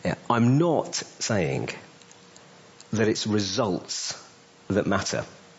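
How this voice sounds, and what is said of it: Slow, deliberate speech. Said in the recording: “Let me say this slowly.”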